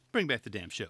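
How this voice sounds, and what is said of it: Imitates another person's voice. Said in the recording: “I'm trying to say that in my best Harvey Keitel voice”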